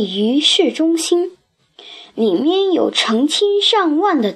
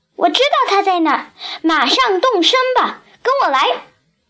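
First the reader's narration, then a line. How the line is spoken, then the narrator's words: Shouting. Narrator (Chinese): 利亚喊着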